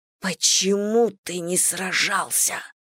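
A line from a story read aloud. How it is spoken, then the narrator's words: Hissed in ear. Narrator (Russian): прошипела на ухо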